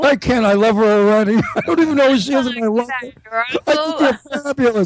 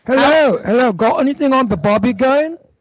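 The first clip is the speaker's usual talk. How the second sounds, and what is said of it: Laughing, attempted Australian accent. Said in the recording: “guy laughing hysterically trying to do an Australian accent ... I did an Australian accent, and you don't know what the heck I'm talking about”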